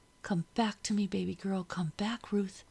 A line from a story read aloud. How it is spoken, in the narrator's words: whispered